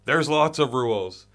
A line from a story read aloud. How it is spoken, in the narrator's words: Hart Dog yells